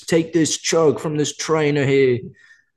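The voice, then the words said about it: Put-on Australian accent. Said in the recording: “That was pretty Australian, actually.”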